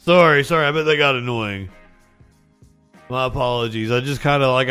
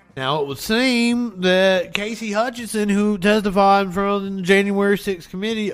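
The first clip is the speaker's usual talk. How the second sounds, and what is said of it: Imitates another person's voice. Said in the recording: “Why am I still doing the Lindsey Graham voice?”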